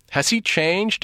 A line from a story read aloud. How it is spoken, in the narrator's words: I cried